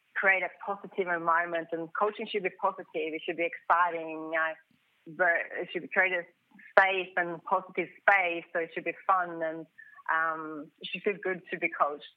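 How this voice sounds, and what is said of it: Swedish accent. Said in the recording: “born in Sweden, as we can tell by your beautiful accent ... It's a wonderful accent.”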